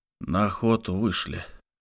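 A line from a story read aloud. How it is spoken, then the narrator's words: Annoyed mutter. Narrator (Russian): с досадой пробормотал Лук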